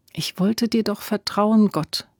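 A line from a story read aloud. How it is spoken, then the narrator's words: Quiet prayer. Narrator (German): betete sie leise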